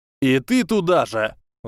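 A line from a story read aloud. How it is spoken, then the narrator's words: Yelled. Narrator (Russian): заорал Драку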